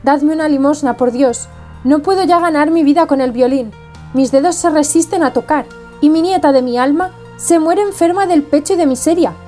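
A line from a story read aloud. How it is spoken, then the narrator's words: Old man imploring. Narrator (Spanish): El viejo implorando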